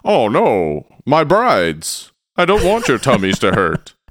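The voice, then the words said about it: Put-on Satan character voice. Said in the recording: “That's my Satan impression, by the way. ... Okay, it's pretty good. Yeah. It's pretty good. Pretty accurate.”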